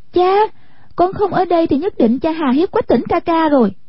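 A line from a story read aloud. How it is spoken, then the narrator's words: Crying out. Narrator (Vietnamese): Hoa Tranh kêu lên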